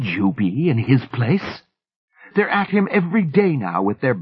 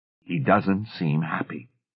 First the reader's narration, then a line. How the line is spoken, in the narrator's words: Hoskins said gravely